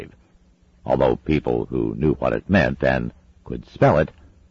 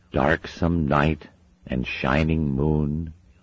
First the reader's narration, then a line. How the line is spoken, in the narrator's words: muttered Anathema